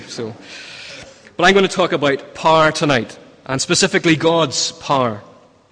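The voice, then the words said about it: Northern Irish accent. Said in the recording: “a Northern Irish accent ... we speak about par, not par”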